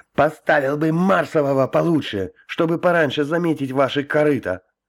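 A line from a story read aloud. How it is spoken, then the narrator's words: Howling and yelling. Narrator (Russian): Он завыл и выдал самое грязное ругательство из тех, которые знал, а потом снова завопил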